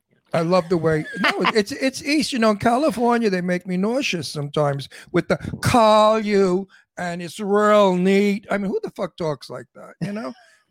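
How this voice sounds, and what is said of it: New York accent. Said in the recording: “I have a New York accent, and I refuse to lose it.”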